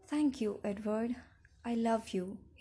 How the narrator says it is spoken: he answered

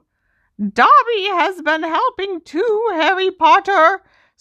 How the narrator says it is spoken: he squeaked

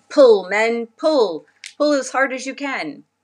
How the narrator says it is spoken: the doctor ... shouted

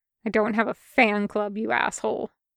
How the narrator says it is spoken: he muttered back

